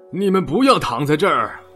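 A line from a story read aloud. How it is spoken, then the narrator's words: Guard roaring. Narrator (Chinese): 看守的人吼道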